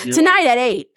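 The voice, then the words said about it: Narrow, straightforward newscaster voice. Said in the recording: “I have like a TV voice. There's a specific way you talk, like a newscaster... the voice just gets real narrow and straightforward”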